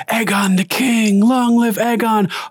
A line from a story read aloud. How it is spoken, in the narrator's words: they're screaming, chanting